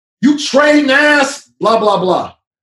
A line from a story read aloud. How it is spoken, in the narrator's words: He sees me and yells